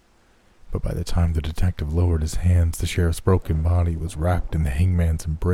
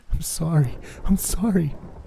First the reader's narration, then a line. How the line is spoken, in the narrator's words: over and over again in a shaky voice